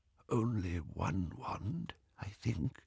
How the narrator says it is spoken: he whispered

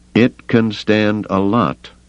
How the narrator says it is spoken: Duncan said slowly

